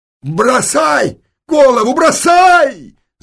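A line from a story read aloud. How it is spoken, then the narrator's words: Yelled. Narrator (Russian): заорал он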